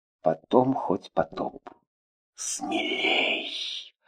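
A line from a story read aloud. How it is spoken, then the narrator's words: Whisper. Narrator (Russian): Прошептала она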